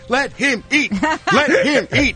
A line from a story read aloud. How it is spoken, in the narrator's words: The crowd was screaming